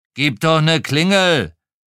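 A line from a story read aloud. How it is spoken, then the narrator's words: Blustering. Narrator (German): polterte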